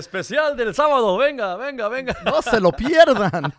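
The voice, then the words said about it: Furniture salesman announcer voice. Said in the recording (Spanish): “tengo voz de, para, vender muebles”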